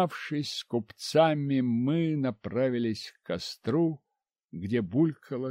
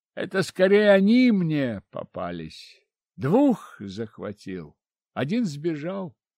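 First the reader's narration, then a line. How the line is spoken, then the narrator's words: Laughing. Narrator (Russian): засмеялся я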